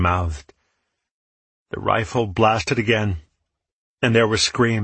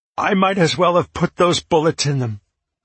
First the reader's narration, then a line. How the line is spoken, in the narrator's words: I cried